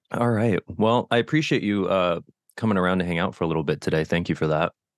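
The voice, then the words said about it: Deep, cold-affected voice. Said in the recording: “I'm dealing with a cold right now. So that's probably another reason why I sound a little creepy. My voice is like an octave lower”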